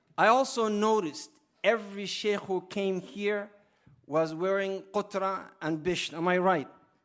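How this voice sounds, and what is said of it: Accented, slow-paced English. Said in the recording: “So I hope you understand my accent, and when I speak, I hope you don't feel that I'm speaking too slow.”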